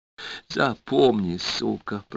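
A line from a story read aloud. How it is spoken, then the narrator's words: Hiss. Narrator (Russian): прошипел Тима Буби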